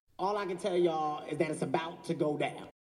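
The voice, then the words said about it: Imitates another person's voice. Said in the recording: “let me just say it in my Kevin Hart voice.”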